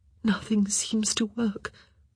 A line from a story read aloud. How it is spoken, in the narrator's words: Sophie whispered